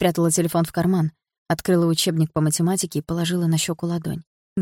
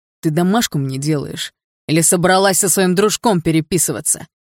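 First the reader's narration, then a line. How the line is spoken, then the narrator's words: Barked. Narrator (Russian): Рявкнул Барс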